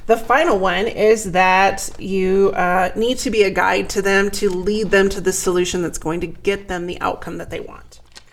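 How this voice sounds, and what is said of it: Strained, fading voice. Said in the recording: “oh my gosh, I'm losing my voice.”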